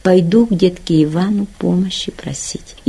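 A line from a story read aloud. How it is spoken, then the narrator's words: Quiet speaking. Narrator (Russian): они тихонько говорили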